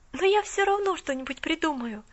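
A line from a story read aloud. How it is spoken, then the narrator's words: Joyful inner thought. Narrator (Russian): решила про себя Поллианна, радостно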